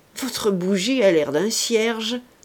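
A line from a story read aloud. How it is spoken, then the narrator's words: Sneering. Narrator (French): dit encore Dupoisat en ricanant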